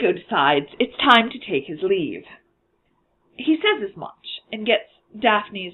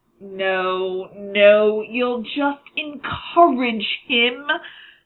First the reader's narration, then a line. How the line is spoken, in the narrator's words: Thomas groans